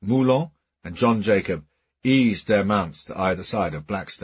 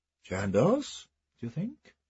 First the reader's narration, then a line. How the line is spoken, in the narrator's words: said Kilbert quietly